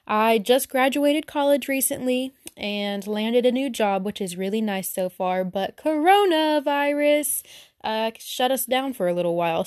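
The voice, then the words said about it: Southern American accent. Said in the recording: “I don't know if you could tell from my voice, but I'm very southern.”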